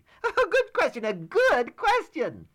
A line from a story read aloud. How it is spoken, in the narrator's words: He exclaimed